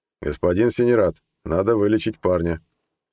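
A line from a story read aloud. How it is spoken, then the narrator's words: Calm, masking nerves. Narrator (Russian): спокойно сказал Нед, стараясь успокоить бьющееся, как птица в клетке, сердце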